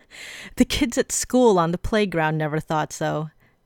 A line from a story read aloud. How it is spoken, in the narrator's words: Arizona said and laughed at the memory